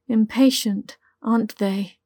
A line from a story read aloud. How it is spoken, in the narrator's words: chuckled